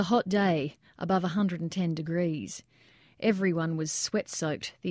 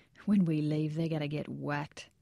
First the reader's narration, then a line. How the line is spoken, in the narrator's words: saying under his breath